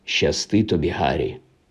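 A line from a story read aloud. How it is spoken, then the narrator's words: Quiet. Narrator (Ukrainian): тихо промовив він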